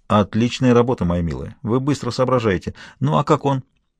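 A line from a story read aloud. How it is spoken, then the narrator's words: Quiet. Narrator (Russian): тихо сказал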